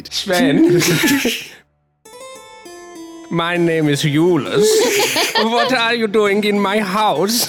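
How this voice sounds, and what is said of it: Put-on German accent. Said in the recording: “Okay, he's German. Perfect.”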